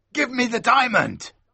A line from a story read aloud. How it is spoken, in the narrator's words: cried the man